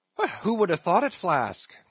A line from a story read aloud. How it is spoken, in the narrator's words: cried